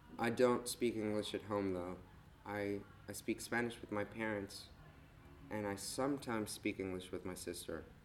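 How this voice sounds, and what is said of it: Rather American accent. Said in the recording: “my American accent had set beforehand. ... usually people say that I have a rather American accent.”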